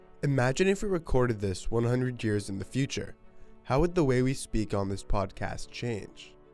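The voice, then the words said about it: General American accent, West Coast touch. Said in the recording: “both of us have a general American accent with a touch of West Coast influence”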